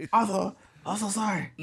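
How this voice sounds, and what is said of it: Imitated Japanese-accented apology. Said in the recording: “his voice trying to apologize in a Japanese voice”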